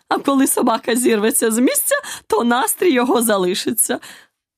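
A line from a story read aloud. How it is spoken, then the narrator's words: Queen's triumphant exclamation. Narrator (Ukrainian): переможно вигукнула королева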